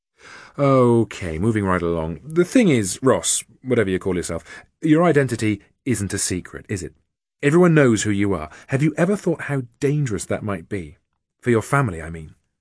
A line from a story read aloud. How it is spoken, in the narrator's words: Jack said smoothly